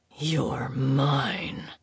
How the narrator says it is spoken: he muttered against her skin

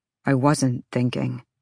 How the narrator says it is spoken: Ethan muttered

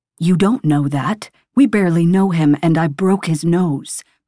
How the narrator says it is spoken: my father says

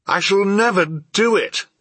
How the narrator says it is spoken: I exclaimed

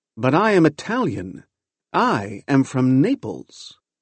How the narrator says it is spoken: He exclaimed loudly

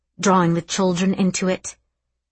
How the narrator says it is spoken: Mummy snapped

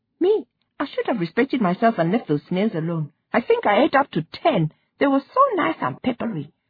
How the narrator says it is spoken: she said, and added, giggling

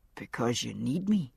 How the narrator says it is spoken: he said very softly

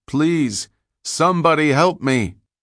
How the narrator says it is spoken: his voice calling out

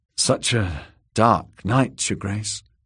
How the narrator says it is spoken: murmured Dorcas

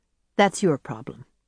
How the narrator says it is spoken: said calmly

